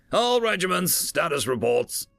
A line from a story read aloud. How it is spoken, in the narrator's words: Trucker snapped